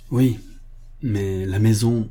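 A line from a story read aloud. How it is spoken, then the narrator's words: Sullen tone. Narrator (French): dit Mary d'un ton si maussade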